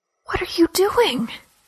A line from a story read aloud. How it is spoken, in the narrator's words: She asked in an agonized whisper